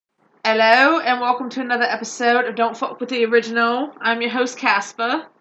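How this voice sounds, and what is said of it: Put-on accent. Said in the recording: “I didn't know we were doing accents.”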